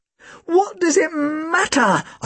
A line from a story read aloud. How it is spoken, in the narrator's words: I almost screamed the words